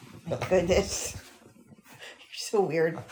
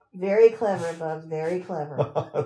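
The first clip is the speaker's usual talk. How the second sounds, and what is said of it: Sarcastic tone. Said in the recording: “I was being sarcastic.”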